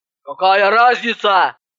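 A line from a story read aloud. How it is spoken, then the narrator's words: Impatient bark. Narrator (Russian): рявкнула Иванова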